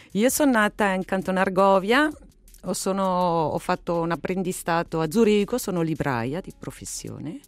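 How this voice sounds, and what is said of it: Swiss German accent in Italian. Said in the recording (Italian): “hai un accento che ci richiama un po' la Svizzera tedesca”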